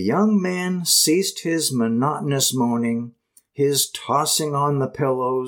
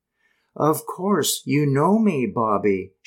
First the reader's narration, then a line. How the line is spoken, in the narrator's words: she persisted gently